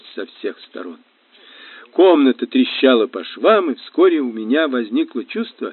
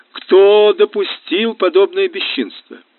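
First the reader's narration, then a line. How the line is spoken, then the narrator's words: Loud indignant question. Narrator (Russian): Она громко вопрошала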